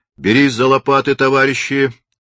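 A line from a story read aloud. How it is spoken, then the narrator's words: Stern commanding order. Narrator (Russian): строго и распорядительно приказал Локотников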